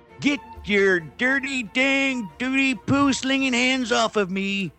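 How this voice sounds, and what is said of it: Bad impression, sounds like old man. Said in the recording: “worst Charlton Heston impression ... What a little old man with a pitchfork.”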